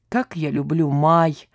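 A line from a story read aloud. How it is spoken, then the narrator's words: Muttering. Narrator (Russian): пробормотал рядом Родионов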